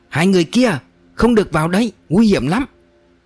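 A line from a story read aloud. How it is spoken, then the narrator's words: Urgent warning shout. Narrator (Vietnamese): Xe Pháo vội hét lên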